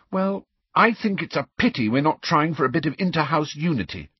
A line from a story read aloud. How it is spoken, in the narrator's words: said Hermione crossly